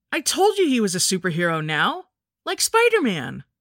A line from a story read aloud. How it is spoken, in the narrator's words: Greg said excitedly